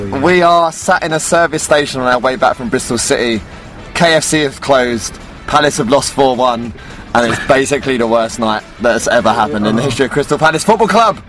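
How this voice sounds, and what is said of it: Enthusiastic podcast presenter voice. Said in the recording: “You've put your preview podcast voice on. ... How are you so enthusiastic at this time?”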